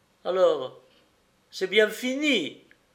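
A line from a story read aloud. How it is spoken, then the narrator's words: Pleading. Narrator (French): implora-t-elle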